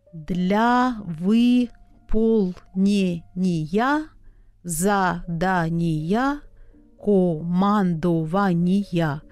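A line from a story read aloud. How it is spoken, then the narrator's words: Slow reading aloud. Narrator (Russian): медленно прочел председатель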